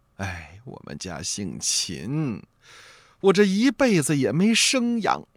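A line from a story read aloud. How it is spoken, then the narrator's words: Old woman sighing. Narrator (Chinese): 老太太呢，叹了口气，说了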